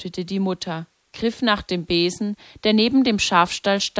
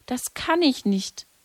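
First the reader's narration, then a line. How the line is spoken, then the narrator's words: Broken voice. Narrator (German): sagte Lucia mit gebrochener Stimme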